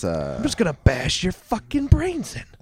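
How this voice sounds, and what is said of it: Put-on menacing character voice. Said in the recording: “Just because you did that voice. ... I wouldn't go off of how I sounded.”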